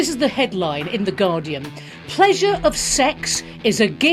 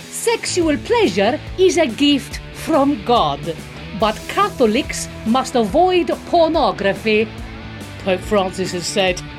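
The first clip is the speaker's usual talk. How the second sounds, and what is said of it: Put-on Italian accent. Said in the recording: “I'm gonna read in an Italian accent just to be even more offensive.”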